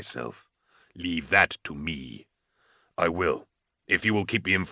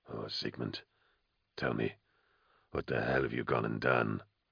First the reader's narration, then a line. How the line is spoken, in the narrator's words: Kalzean whispered